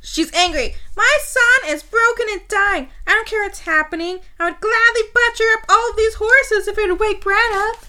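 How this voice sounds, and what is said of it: Mocking character voice. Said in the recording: “To do that voice. To do that mocking voice.”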